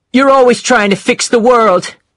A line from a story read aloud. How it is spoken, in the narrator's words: she shouted